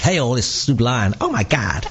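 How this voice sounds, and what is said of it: Put-on American accent. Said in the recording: “It's like my American accent, that is.”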